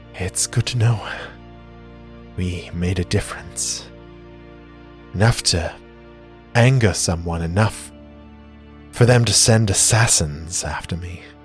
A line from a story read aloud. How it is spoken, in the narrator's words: Sejana, even in her weakened, pain-medicated state, smiles wistfully and says